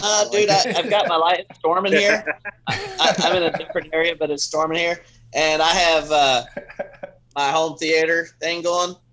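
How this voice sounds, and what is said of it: Strong Florida accent. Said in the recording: “you have the most Florida accent I've ever heard in my life ... All I hear is Florida”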